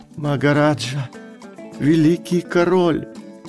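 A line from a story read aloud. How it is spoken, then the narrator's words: Hoarse whisper. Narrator (Russian): хриплым шепотом произнес он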